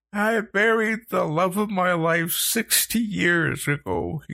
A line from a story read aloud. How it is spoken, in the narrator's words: he choked